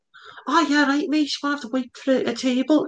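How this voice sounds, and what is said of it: Imitated Liverpool Scouse accent. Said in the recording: “that's the good accent. It was like Jamie Carragher.”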